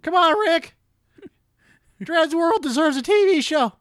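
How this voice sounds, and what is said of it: Cartoon Morty character voice, cracking. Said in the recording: “do the Morty voice? ... God, your voice is breaking, Morty.”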